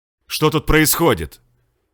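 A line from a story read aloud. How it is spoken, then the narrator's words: Loud, harsh. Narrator (Russian): громко и жестко спросил капитан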